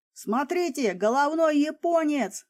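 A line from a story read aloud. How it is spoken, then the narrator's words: Yell. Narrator (Russian): заорал штурман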